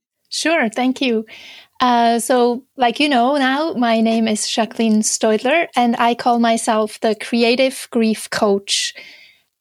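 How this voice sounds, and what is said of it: Slight Swiss accent. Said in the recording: “you might hear a slight little accent in my speech. So I'm originally from Switzerland”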